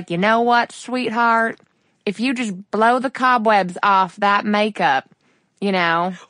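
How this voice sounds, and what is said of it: Put-on Texan deep South accent. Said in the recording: “I like went for some Texan and then it turned into like something really not Texan. But he feels like this, like, deep South, good old boy.”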